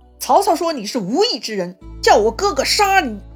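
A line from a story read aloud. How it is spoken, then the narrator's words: Loud shout. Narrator (Chinese): 这张飞就大喊了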